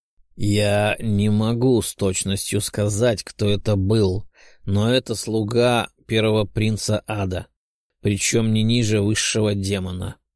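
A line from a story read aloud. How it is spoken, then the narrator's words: Flat, dull voice. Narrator (Russian): серым голосом обронил Велиафон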